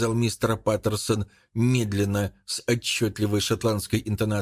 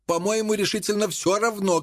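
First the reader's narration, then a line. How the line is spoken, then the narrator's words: Shouting. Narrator (Russian): крикнул Энсли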